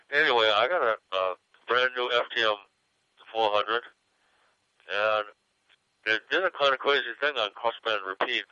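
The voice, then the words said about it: Congested, stuffy nasal voice. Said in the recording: “Excuse my voice. I got a stuffed up nose.”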